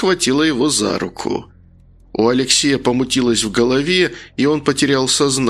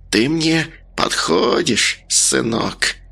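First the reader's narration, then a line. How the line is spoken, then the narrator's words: Hissing. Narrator (Russian): Она прошипела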